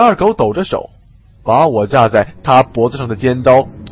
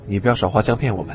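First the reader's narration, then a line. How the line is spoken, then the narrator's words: Low question. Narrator (Chinese): 王刚低声问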